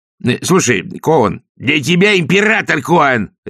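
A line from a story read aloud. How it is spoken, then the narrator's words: Barked. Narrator (Russian): рявкнул Раклет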